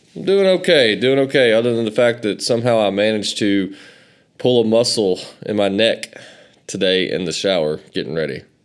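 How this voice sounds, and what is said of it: Southern American accent. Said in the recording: “if you guys think I have a southern accent”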